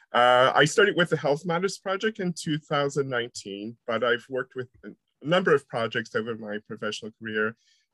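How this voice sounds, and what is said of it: American accent, not quite British. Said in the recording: “probably by the accent you realize I'm not from the Liverpool region. I'm originally from America, and even though I'm here for 20 years, I still sound sort of strange. I don't quite have a Liverpudlian accent or a Mancunian accent”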